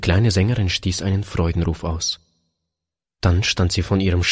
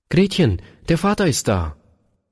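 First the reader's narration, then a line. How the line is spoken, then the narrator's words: Calling out. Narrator (German): seine Frau rief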